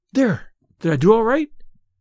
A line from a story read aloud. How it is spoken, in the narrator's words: she asked eagerly